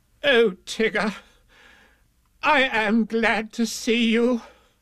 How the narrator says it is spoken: cried Rabbit

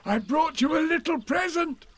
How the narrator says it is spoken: said Pooh excitedly

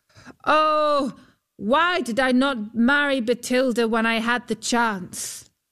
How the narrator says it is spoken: Huldbrand called out

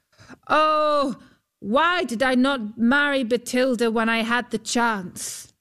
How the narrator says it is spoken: as he too was scrabbling to get hold of a rope or a mast, Huldbrand called out

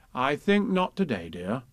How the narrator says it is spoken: said Kanga

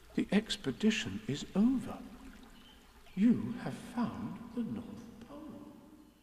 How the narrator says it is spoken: said Christopher Robin solemnly

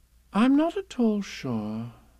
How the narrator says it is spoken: said Kanga in a thoughtful voice

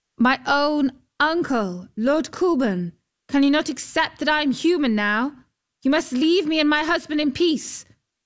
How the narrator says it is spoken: called out

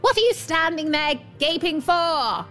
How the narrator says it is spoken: screamed the dwarf, scarlet with rage

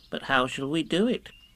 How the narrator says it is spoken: asked Piglet

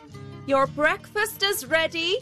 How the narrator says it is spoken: his housekeeper called out

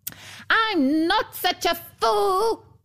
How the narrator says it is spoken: screamed the dwarf

